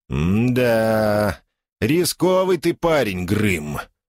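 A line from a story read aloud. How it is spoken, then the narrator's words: Drawn-out drawl. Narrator (Russian): протянул Падди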